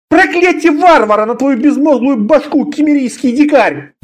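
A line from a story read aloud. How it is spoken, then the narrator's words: Shout. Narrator (Russian): закричал он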